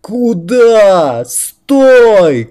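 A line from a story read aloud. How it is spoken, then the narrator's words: Shouted. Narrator (Russian): кричала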